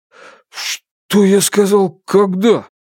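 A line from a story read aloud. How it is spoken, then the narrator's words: Breathless, strained words. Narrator (Russian): выдавил из себя Тайвей, с трудом отдышавшись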